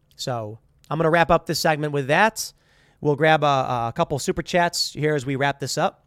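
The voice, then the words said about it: Slightly raspy voice. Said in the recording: “You can see I'm getting a little raspy.”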